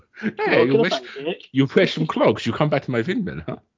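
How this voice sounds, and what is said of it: Put-on camp German-Dutch accent. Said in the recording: “it always comes out Dutch ... Now you've just gone German ... I have gone a little bit German ... like the camp Germans”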